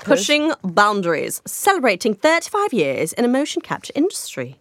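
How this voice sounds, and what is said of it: Put-on British accent. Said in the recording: “Look at her in her British accent. I love it.”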